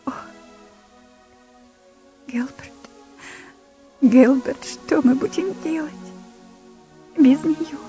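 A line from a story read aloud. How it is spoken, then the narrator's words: Sobbing speech. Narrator (Russian): между всхлипываниями я услышала, как она говорила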